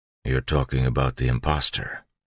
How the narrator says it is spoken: Ham said quietly

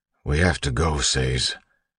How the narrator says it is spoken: Ham said quietly

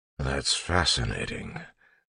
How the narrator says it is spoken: Clubs mumbled

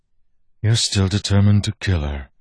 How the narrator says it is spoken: Milan said, sighing

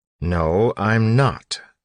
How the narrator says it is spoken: Elend snapped

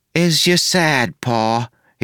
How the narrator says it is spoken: he asked loudly

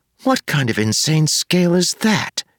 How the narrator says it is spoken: whispered

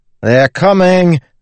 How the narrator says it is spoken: Wayne shouted

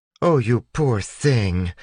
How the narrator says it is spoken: the woman exclaimed

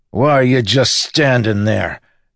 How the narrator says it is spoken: Miggs shouted at the lawman

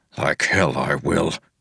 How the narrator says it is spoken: Wax growled

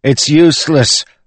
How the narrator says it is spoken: one of the lads cried

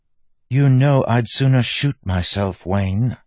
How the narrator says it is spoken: she said with a sigh

